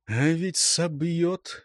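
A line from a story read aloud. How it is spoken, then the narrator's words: Inner whisper. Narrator (Russian): шептало что-то внутри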